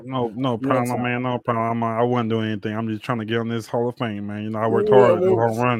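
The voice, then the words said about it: Imitates another person's voice. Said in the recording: “My accent might be gone because I don't know how to do an accent like I used to do ... that's pretty legit though. You're doing pretty good over there. I mean, you didn't lose it all the way”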